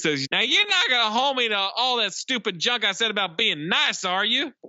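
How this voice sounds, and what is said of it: Deliberately annoying kid's voice. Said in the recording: “What is that voice you're doing, man?... I'm trying to do the most annoying voice I can because that's how this fucking kid sounds”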